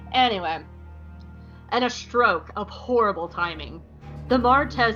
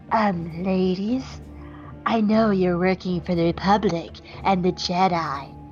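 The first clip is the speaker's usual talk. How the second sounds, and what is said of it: Decent Mr. Burns impression. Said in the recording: “do the Smithers voice ... was that a good Smithers? ... That was you mean Mr. Burns ... was a decent Mr. Burns”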